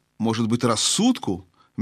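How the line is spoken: Soft reply, elephant. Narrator (Russian): мягко ответила слониха

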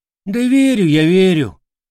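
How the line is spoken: Glum reply. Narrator (Russian): уныло ответил козявый

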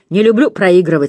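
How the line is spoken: Plain. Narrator (Russian): сказал инспектор Креддок

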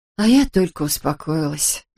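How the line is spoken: Sighing. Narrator (Russian): вздохнула Эбби

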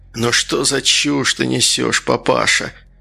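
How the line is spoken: Tired child's voice. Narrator (Russian): усталым голосом спросил малыш

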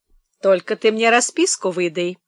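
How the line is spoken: Businesslike tone. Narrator (Russian): деловым тоном говорила

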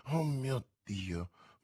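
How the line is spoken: Murmuring. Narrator (Italian): mormorò Felton

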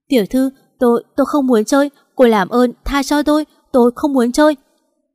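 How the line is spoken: Terrified young man stammering. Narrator (Vietnamese): Tên thanh niên mặt xanh tái mét, cả người run rẩy lắp bắp nói

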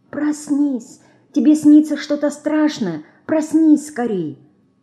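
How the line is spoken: Soft whisper. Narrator (Russian): Мышка тихонько шепчет

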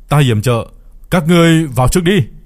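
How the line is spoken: Distant shout. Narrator (Vietnamese): Có người hét lên một tiếng, mặc dù khoảng cách khá là xa nhưng đám người La Trinh vẫn nghe được rõ ràng

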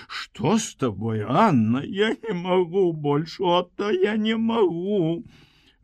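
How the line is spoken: Crying and smiling. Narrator (Belarusian): Яна ўжо і плакала, і усміхалася

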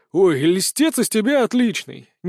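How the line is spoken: Displeased grumble. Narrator (Russian): недовольно пробурчал Толик

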